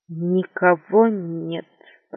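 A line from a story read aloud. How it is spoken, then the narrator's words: Muttered. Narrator (Russian): пробормотал он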